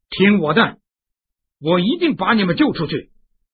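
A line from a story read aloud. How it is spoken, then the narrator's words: Loud. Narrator (Chinese): 他大声说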